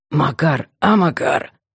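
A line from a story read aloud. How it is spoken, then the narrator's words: Hoarse rasp. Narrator (Russian): прохрипел Бурый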